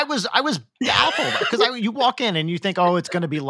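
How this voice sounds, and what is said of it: Usual voice. Nothing is said of it.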